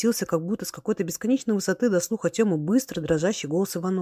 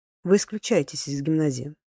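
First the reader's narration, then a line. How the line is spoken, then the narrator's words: Cold, calm. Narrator (Russian): проговорил холодный и спокойно директор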